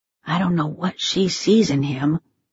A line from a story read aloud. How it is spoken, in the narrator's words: Teddy whispered